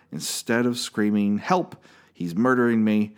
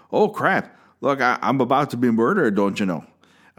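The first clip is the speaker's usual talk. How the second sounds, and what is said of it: Put-on Wisconsin accent, poorly done. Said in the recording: “I'd make it super Wisconsin ... That's my Wisconsin accent ... I'm terrible at accents”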